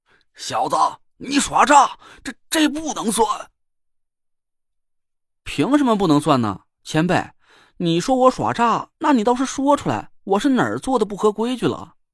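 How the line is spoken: Stunned, then furious roar. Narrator (Chinese): 金虎天尊，一声就怒吼了起来

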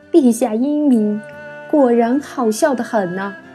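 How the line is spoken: Laughing. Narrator (Chinese): 曾月开始笑，边笑边道

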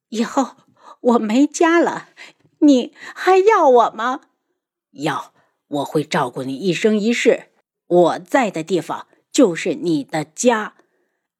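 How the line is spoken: Sorrowful, sad smile. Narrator (Chinese): 他凄楚地对云川笑

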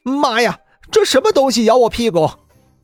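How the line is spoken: Startled yell. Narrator (Chinese): 吴恒嘴里叫道

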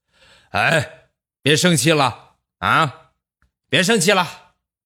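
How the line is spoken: Loud gruff voice. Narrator (Chinese): 粗气大声的说

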